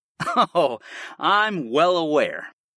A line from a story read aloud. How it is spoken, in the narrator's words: I chuckled